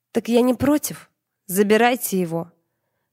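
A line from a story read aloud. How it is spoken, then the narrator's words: Growling. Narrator (Russian): прорычала я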